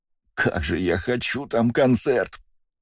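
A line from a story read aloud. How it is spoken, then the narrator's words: Longing moan. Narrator (Russian): простонал Астарот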